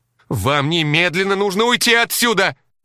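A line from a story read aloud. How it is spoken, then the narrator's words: Frantic, crazed shouting. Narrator (Russian): безумно вращая глазами, кричала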